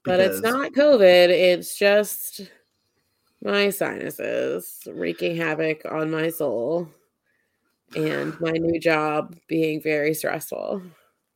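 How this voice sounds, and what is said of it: Croaky, congested sick voice. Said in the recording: “kind of sick. So I apologize if I sound like a dead frog ... the last two episodes I sounded bad”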